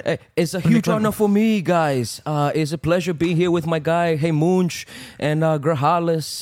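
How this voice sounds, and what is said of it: Imitates another person's voice. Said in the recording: “your best uh, Bernardo Ferrer impersonation. I want to hear your Bernardo ... that's a pretty good, but I think you can go farther”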